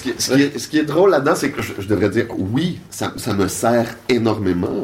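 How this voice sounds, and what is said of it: Strong Québécois French accent. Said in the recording (French): “tu as un accent québécois assez fort”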